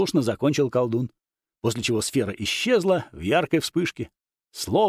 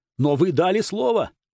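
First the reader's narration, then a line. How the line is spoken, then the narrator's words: Abbot exclaiming in protest. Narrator (Russian): протестующий воскликнул настоятель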